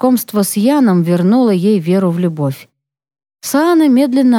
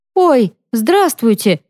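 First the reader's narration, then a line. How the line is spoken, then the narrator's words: Joyful. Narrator (Russian): радостно отвечает Саана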